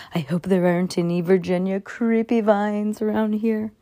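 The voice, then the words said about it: Spooky voice. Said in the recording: “in a spooky voice.”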